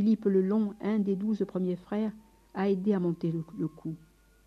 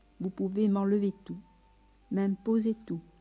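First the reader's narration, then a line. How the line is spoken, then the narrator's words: Plain. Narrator (French): a-t-elle dit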